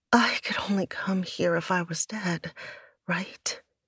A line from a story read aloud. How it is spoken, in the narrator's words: Ciel asked on a moan